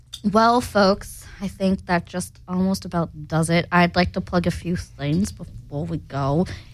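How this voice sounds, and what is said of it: Put-on accent, poorly done. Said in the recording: “What is this accent? ... I just don't know how to do it.”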